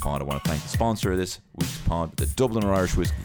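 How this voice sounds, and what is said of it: Raw, strained voice. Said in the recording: “fucking raw, which is what my voice is right now”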